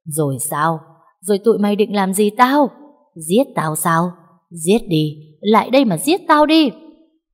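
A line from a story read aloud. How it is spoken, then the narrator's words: Woman's mad laughter. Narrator (Vietnamese): Bà ta cười lớn lên như một người điên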